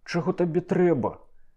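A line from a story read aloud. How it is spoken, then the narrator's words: Sudden cry. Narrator (Belarusian): ускрыкнуў маміда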